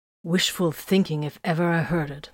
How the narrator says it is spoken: Vox growled

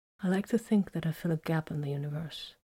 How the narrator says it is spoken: Vox said quietly

